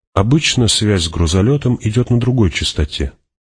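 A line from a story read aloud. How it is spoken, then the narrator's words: Plain. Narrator (Russian): ответил Кинес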